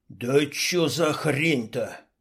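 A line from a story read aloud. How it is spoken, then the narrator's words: Hiss. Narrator (Russian): прошипел Шалый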